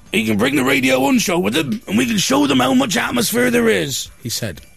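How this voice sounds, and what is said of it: Put-on West Country accent. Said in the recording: “In a West Country accent.”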